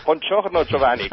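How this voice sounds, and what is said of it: Italian with a German accent. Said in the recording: “speak Italian with a German accent.”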